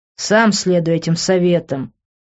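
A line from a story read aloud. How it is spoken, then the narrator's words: Snort. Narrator (Russian): фыркнув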